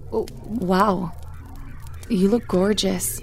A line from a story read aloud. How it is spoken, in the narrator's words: stammered, like a puppy dog in love